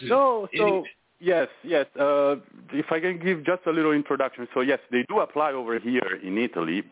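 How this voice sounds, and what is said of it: Non-Italian foreign accent. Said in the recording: “I hear an accent, but it don't sound Italian.”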